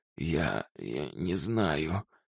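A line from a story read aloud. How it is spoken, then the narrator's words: Hoarse. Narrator (Russian): хрипит он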